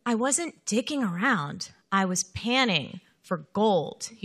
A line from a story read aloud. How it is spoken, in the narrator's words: he said